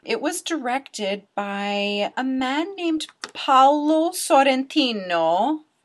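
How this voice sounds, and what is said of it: Name said in Italian accent. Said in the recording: “I totally pronounced that with an Italian accent, just practicing my Italian”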